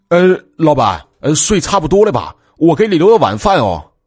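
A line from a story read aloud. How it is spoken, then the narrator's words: Calling from outside. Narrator (Chinese): 阿鲁在外面喊道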